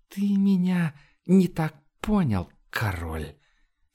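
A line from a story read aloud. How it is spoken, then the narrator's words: Whistling hiss, necromancer. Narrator (Russian): Свистящим голосом шипел некромант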